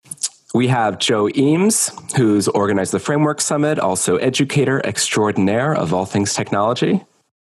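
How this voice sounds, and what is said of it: Sick-sounding voice. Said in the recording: “I'm a little bit sick today, so I apologize for my voice”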